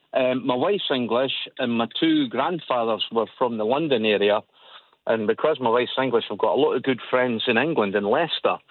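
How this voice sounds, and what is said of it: Scottish Edinburgh accent. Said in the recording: “as you can hear from my voice, I'm Edinburgh. I'm very Scottish.”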